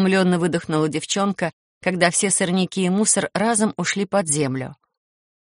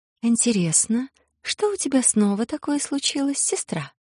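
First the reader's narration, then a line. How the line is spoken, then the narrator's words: Soft rustling voice. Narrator (Russian): мягко прошелестел по духам голос зеленоволосый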